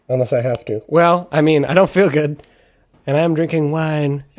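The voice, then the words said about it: Voice fading, hoarse and strained. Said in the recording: “my voice is progressively gone in the past 30 seconds ... that's an impressive filter you've developed”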